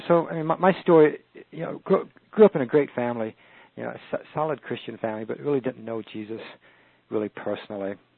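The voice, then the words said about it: Unusual accent, sounds English or Australian. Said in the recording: “I had a speech defect ... most people ask me where I got my accent from. It's really not an accent. ... I'm from someplace in England or Australia or the East ... You're from South Wales.”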